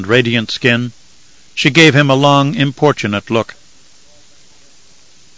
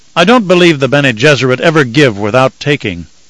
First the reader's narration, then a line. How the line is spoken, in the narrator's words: Leto snapped in sudden fury